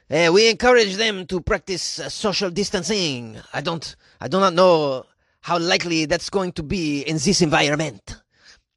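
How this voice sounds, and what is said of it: Put-on French accent. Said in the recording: “Why would you give that guy a French accent?”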